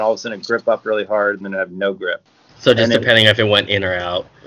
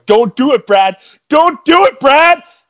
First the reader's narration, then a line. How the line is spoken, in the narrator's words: I was yelling like